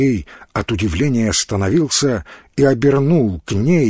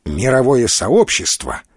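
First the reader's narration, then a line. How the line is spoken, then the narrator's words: Polite snap. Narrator (Russian): вежливо огрызнулся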